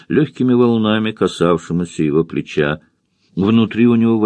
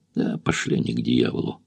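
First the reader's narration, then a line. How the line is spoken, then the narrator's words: Grumbled. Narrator (Russian): буркнул Тед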